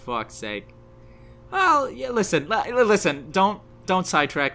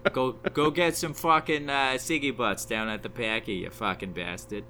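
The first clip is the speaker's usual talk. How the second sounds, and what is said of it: Boston accent impression. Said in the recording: “We heard your Boston accent, your Ben Affleck ... I mean, that's pretty good.”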